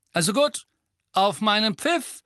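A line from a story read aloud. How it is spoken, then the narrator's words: Call. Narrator (German): rief Angelina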